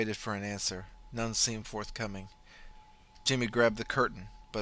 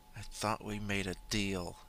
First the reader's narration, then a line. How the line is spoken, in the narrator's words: In a quiet voice, lacking any hint of fear, he said